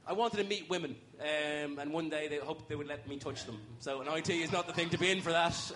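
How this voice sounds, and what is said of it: Irish accent. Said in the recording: “you had an Irish accent ... it's difficult to have phone sex in this accent ... That thing about the Irish accent being sexy”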